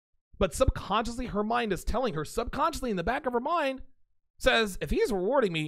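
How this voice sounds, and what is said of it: Usual voice. Nothing is said of it.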